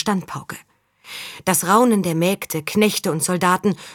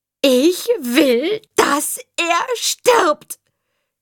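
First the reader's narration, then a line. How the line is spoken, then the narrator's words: Boy shrieking loudly. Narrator (German): kreischte der Junge jetzt laut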